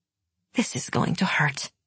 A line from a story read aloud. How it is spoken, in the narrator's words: she muttered